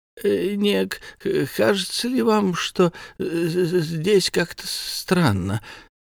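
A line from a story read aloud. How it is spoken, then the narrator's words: Old man stammering. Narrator (Russian): Дед заикался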